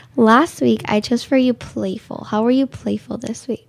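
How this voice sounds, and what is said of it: Hoarse, nearly lost voice. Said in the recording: “My voice is almost gone”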